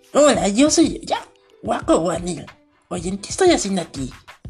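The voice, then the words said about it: Imitated character voice. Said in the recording (Spanish): “Esta es una imitación, no se vayan a confundir... Es una imitación del personaje más fácil. Uno de los tres, personajes más fácil de imitar.”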